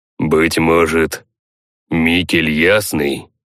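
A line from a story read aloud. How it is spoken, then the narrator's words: Viking's skeptical snort. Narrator (Russian): хмыкнул викинг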